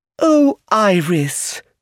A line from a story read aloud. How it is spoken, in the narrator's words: Lucilla cried